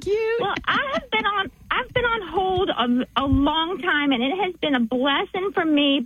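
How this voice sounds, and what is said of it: Southern American accent. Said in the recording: “my accent ... cute little Southern accent.”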